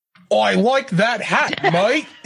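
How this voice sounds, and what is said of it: Put-on Australian accent. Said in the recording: “Trying to get in my Australian accent. ... Supposed to be Australian.”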